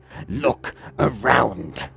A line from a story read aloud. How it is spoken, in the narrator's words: Forgrim screeched